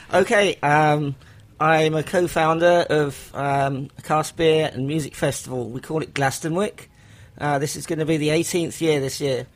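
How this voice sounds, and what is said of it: English accent. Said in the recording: “Here's the English accent that we love.”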